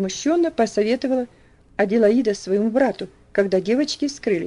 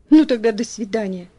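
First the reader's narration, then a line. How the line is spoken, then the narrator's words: Sighing reply. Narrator (Russian): вздохнув, ответила Люси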